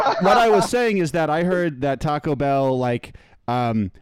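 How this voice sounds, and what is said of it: Usual voice. Nothing is said of it.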